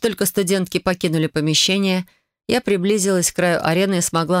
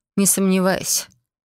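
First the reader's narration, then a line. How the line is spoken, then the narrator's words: Curt grumble. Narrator (Russian): лишь буркнула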